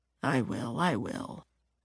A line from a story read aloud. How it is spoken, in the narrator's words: mumbles